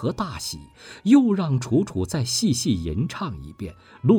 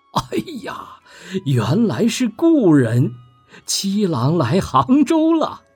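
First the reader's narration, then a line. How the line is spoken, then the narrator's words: Sweet smiling. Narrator (Chinese): 楚楚嫣然笑道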